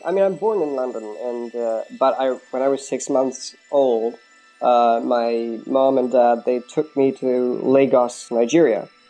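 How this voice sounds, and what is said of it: American accent. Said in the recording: “I have this American accent.”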